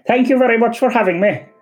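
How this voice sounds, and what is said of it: Irish County Kerry accent. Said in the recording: “in your actual Cara Savine accent ... you're actually from County Kerry”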